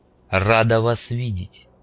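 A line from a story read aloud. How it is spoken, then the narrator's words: Cold, curt. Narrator (Russian): холодно бросила коса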